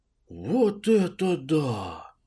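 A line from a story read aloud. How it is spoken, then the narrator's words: Stunned exhale. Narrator (Russian): выдохнул ошалевший Нилыч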